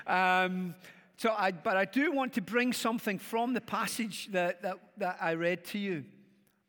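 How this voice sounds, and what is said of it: Glaswegian Scottish accent. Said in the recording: “stick with this accent, because the faster I go, the more Glaswegian I become ... Glaswegian”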